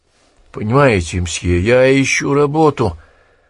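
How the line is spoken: Pitiful voice. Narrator (Russian): жалким голосом проговорил он

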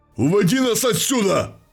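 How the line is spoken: Barked. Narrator (Russian): рявкнул Тиро

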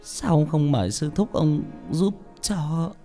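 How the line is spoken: Trembling. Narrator (Vietnamese): Bà run rẩy

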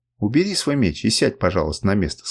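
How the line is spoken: Plain. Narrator (Russian): сказал мне Камчак

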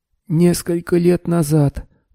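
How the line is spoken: Hoarse wheeze. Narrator (Russian): прохрипел триллианец

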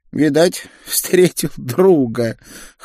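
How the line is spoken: Old bird's snort. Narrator (Russian): хмыкнул старый пеликан

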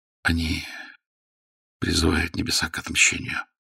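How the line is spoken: Whisper. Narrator (Russian): сказал шепотом Мержи капитану Рейтаров

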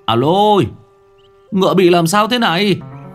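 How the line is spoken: Sudden cry. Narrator (Vietnamese): Người quản ngựa bỗng nhiên kêu lên

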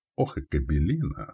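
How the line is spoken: Commander grumbling. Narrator (Russian): буркнул командир

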